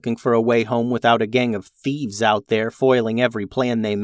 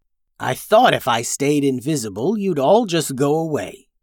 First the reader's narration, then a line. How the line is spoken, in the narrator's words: grumbled the dragon